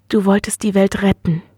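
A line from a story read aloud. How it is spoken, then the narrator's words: Gentle correction. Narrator (German): korrigierte sanft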